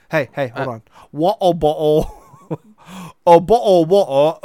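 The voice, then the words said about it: Put-on British accent. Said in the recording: “saying water bottle in a British accent ... Keep your lips pursed ... it almost sounds like you're underwater”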